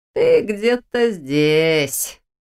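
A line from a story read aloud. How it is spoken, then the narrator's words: Mocking drawl. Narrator (Russian): насмешливо протянула то, что выглядело как ее ассистент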